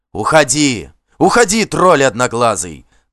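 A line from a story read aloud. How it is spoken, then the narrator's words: Yelled. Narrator (Russian): заорал ему Вигмар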